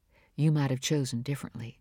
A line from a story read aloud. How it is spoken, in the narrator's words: she added softly